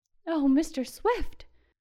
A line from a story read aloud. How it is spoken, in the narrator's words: cried Carol